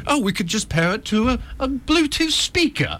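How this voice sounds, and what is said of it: Mock posh British accent. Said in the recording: “I love just that posh British accent.”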